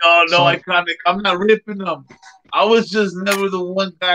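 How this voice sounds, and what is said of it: Usual voice. Nothing is said of it.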